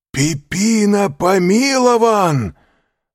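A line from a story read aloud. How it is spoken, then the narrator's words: Sudden shout. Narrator (Russian): закричал Андреа, сразу стряхнув с себя оцепенение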